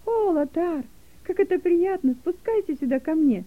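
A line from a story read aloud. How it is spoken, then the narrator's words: Joyful call. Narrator (Russian): радостно позвала Гелека Лотара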